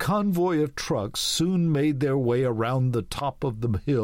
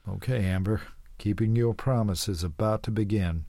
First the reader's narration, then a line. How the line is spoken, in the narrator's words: mumbled to himself